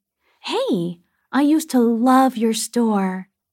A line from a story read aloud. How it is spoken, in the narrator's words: I heard someone exclaim